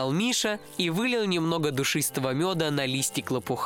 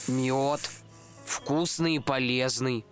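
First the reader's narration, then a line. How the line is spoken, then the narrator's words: Slightly sad reply. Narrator (Russian): ответил Мишка почему-то немного грустно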